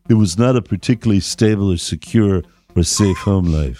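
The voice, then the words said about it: Johnny Depp impression. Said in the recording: “my Johnny Depp impression.”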